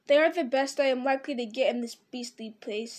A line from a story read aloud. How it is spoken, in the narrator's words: he muttered